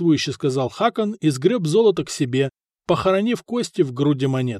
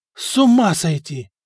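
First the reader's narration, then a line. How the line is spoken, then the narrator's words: Breathed out in unison. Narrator (Russian): выдохнули все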